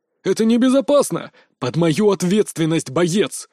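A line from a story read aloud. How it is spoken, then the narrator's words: Mage's angry bark. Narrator (Russian): Зло рявкнул маг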